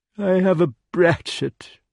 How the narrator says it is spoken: he said sadly

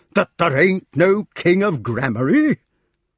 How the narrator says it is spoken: exclaimed Sir Grummore indignantly

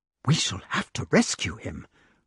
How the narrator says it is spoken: whispered the wart

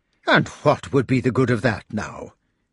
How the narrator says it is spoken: exclaimed indignantly

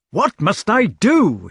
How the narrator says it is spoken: he cried

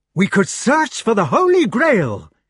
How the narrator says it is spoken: he cried triumphantly

